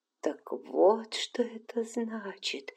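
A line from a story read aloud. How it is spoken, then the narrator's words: Trembling whisper. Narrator (Russian): шептала она, дрожа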